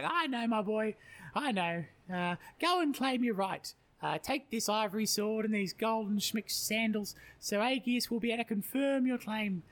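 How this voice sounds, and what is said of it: Put-on voice for mother Aethra. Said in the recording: “Do the voice”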